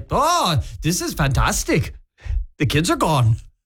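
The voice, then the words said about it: Put-on North Dakota accent. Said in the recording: “I don't know what that accent is. ... Were they from North Dakota? ... because it sounded like it.”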